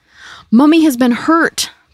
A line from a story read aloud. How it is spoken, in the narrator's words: Pauline yelled